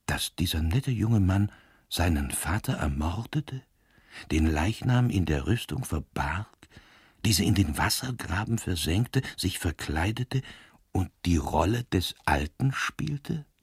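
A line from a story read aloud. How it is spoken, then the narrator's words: Soft. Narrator (German): sagte Granby leise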